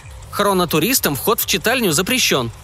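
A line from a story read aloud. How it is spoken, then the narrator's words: Stern librarian. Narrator (Russian): строго заявила библиотекарша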